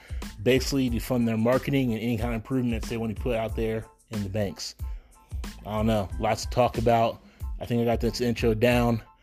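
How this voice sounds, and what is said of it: Hoarse voice. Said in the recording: “Excuse my voice. It's a little bit hoarse. ... I'm getting a little bit sick.”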